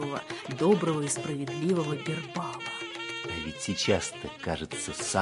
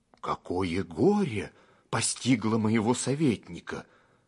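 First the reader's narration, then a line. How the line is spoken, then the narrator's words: Alarmed exclamation, king. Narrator (Russian): встревоженно воскликнул царь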